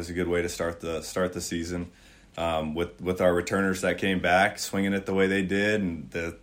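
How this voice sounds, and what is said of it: Strained, hoarse voice. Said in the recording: “apologize for my voice ... Communicating over wind and some cold air this weekend shot my throat a little bit”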